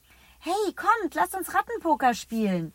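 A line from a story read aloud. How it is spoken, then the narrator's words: Calls out. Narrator (German): ruft Eliott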